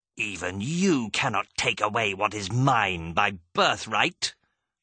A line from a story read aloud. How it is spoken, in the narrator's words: she snarled